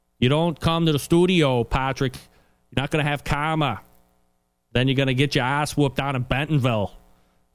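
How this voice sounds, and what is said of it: Put-on New England accent. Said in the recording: “That's my New England accent”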